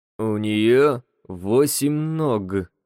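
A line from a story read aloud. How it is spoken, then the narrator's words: Slow. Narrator (Russian): сказал Малышев медленно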